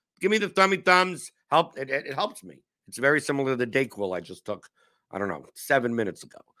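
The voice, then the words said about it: Slightly hoarse voice. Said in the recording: “I can't talk as efficiently as I'm a little bit hoarse ... recover from my cold”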